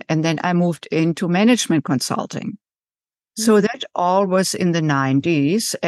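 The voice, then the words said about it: German accent in English. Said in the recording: “So as you can tell from my accent, I didn't grow up in the United States. I was born and raised in Germany”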